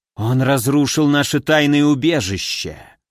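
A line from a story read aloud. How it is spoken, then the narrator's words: Growled. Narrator (Russian): прорычала вторая из тройки, темно-розовая гипнотитанша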